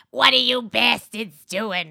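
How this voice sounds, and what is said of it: Gritty old-person character voice. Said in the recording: “she had like that gritty kind of voice ... your impersonation of an old person ... my character Barbara”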